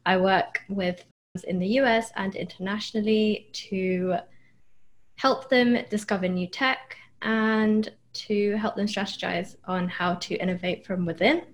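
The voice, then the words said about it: British accent. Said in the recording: “I'm originally from the UK, as you can probably tell from my accent”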